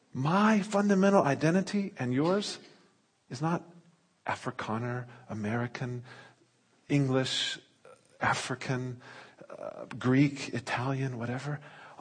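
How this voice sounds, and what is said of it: American accent, somewhat mixed. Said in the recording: “I'm from the States originally. Oh, but you still got the accent... Americans say I talk funny as well, so I've got some sort of middle thing.”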